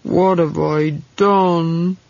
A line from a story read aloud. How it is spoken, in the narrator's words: He moaned